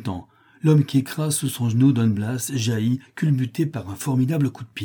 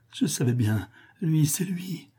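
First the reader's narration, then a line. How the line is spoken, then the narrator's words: Murmured. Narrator (French): murmure Juana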